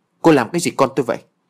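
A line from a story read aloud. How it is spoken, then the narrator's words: Angry mother shouting. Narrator (Vietnamese): Mẹ cô bé quát lớn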